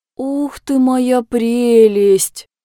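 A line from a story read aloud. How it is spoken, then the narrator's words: Enchanted drawl. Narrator (Russian): Протянула она, зачарованно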